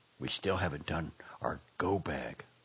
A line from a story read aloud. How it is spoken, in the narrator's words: my partner whispered to me urgently